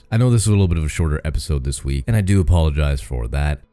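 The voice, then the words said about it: Raw, slightly hoarse voice. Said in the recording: “My voice is getting raw. You might be able to hear it a little bit.”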